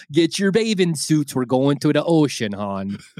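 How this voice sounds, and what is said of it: Put-on Baltimore accent. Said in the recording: “somebody from fucking Liverpool and somebody from Dundalk, Maryland having a rap battle”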